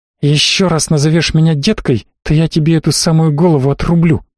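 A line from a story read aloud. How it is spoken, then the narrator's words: Hissed. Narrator (Russian): зашипела на него тифлингша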